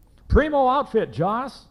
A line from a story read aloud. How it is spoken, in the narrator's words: he yelled above the chunga-chunga-chunga sound of urethane wheels